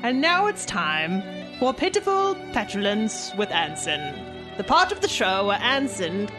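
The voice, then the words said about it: Put-on British accent. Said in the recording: “you do a pretty good British accent”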